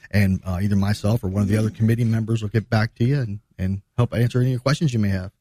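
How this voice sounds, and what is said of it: Polished radio announcer voice. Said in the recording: “You did that in your best radio voice too”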